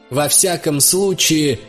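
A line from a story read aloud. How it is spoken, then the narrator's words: Loud, to empty room. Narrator (Russian): сказал я, громко обращаясь к пустой комнате и к бушующему ветру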